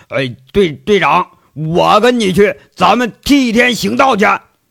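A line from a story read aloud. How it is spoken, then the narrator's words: Fired-up shout. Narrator (Chinese): 秦三河是听得热血沸腾，喊了声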